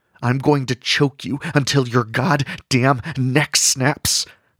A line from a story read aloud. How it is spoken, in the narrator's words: Rigby hissed